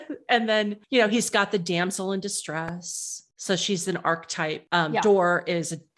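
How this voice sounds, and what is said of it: Usual voice. Nothing is said of it.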